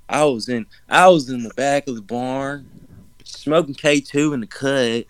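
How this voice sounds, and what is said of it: Slow drawling Savannah Southern accent. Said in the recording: “Savannah accent ... It should flow like molasses”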